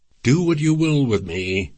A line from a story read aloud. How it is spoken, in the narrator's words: she answered in an angry voice